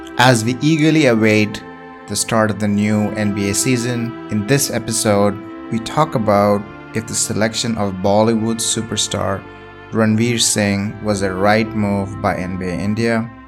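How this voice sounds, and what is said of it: Indian English accent. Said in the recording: “your favorite NBA podcast in an Indian accent.”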